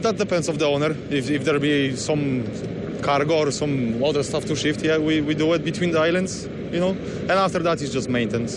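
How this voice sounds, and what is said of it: Non-local foreign accent. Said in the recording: “That's not a Baltimore accent? ... No, I was born in Poland.”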